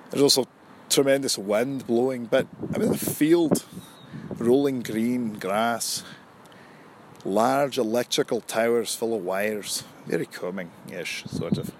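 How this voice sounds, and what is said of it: Put-on Scottish accent. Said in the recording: “I'm doing a Scottish accent ... in a Scottish accent”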